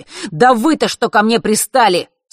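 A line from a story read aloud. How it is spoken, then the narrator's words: Angry exhale. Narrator (Russian): Сердито выдохнул он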